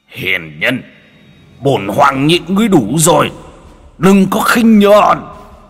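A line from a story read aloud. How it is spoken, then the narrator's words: Phoenix shout. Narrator (Vietnamese): Hư ảnh Phượng Hoàng hét lên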